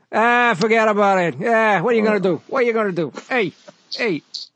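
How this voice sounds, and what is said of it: Put-on New York accent. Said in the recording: “the baboon would have a New York accent.”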